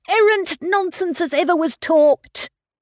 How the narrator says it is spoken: cried Mr

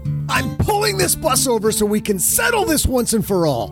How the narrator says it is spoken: Doug exploded, screaming

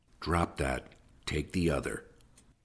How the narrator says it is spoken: Tom growled under his breath

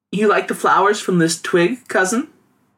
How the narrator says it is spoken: Ying Ning giggled

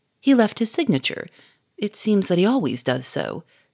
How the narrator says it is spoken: said Sonia in an explanatory tone

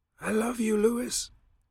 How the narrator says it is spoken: he says, a papery whisper on his shrunken tongue

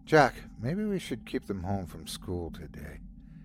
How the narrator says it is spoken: Daisy said weakly

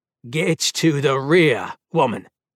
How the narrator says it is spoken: Ermelon growled

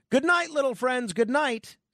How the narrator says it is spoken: Carney thought he was off the air and exclaimed

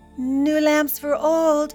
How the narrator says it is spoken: cried the peddler

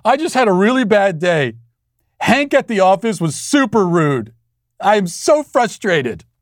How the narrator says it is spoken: tears dripping down his cheeks, sobbing and saying

